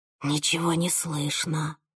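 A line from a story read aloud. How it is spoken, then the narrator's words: Whisper. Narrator (Russian): прошептала я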